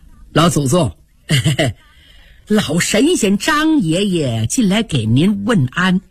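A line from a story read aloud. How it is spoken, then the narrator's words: Smiling. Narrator (Chinese): 贾珍带笑说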